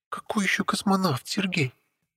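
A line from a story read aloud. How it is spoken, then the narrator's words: Hissing. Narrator (Russian): Зашипела Лилия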